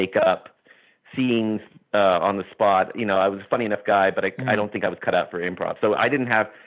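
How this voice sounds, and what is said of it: Usual voice. Nothing is said of it.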